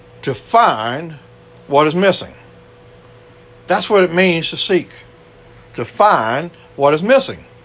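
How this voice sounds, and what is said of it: Cajun accent. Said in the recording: “I'm just an old Cajun boy here. My accent is not really that great.”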